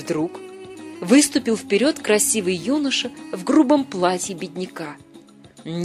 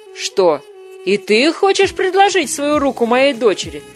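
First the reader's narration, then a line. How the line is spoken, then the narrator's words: Mocking question. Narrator (Russian): спросил его насмешливо бай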